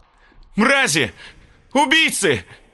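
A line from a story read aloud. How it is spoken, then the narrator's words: Shouted. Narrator (Russian): Закричал Ансар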